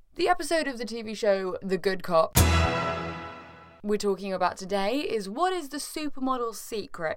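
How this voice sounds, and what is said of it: Low, husky voice with a cold. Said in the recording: “I have a cold, ... So apologies if I sound a little bit like low and husky”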